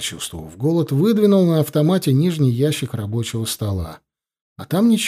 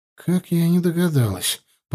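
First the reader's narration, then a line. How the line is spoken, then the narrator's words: Mutter. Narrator (Russian): пробормотала главбух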